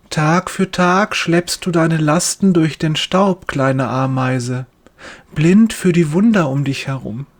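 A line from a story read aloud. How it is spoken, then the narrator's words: Gentle voice. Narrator (German): sagt er mit sanfter Stimme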